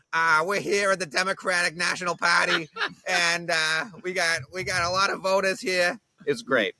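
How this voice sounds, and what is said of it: Boston-accented impression of Tom Menino. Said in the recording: “the Boston accent's real ... our mayor sounds like this. Like I showed her clips of Tom Menino, who's the mayor of Boston for years and years and years”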